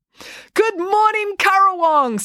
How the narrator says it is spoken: said the woman happily

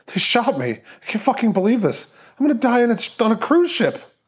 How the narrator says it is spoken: The man groaned, then choked out

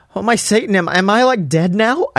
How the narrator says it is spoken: I gasped

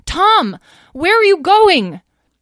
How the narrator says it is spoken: Talora behind him, screaming

